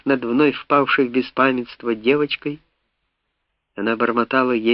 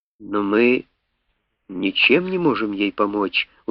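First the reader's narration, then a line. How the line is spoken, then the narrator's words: Tired objection. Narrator (Russian): устало возразил я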